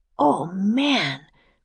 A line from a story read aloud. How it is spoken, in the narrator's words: whispered Jack